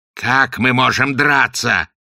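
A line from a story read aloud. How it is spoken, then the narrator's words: Angry shout. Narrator (Russian): гневно заорал Огл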